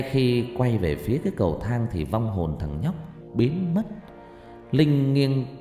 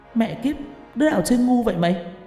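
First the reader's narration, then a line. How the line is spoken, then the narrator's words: Startled loud shout. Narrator (Vietnamese): Linh giật mình hét lớn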